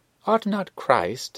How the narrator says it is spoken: exclaimed he

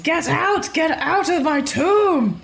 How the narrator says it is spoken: It screams

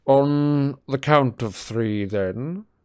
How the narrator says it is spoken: said Snape lazily

